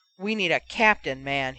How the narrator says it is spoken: he roared

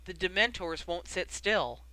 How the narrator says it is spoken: Arthur informed them, and though his voice was steady

